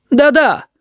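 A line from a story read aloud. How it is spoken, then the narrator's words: Joyful group shout. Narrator (Russian): радостно закричали остальные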